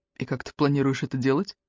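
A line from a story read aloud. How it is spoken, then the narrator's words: Plain question. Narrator (Russian): спросил Эллиот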